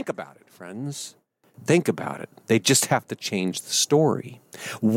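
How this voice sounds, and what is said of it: Usual voice. Nothing is said of it.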